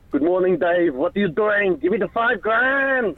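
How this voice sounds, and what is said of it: Imitates another person's voice. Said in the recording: “do a great Arnold Schwarzenegger impression ... That's good. It is actually very good.”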